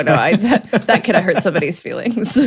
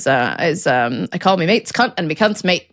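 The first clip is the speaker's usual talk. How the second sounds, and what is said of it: Mild Australian accent. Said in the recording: “I'm glad you didn't go too hard on the accent there.”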